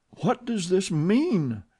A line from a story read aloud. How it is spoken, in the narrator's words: she cried